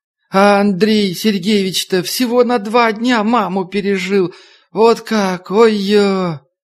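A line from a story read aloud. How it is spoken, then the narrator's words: Old woman wailing loudly. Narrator (Russian): Старушка, как и полагается восточным плакальщицам, зарыдала в полный голос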